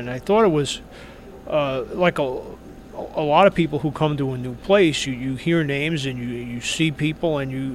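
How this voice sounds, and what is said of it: New York accent. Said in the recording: “as you might be able to tell from the accent, I'm not from here. I'm originally from New York”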